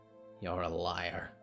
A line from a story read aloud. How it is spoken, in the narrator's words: muttered Zelda